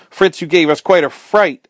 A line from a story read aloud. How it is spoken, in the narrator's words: cried